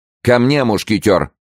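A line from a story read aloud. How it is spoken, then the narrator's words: Shouted. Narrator (Russian): крикнул король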